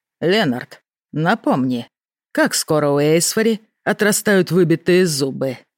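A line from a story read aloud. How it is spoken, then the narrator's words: Gloomy question. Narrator (Russian): мрачно поинтересовался Рен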